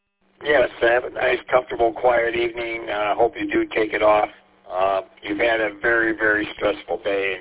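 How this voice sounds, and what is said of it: Raw, hoarse voice. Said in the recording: “apologize for my voice. It's kind of raw... I lost my voice”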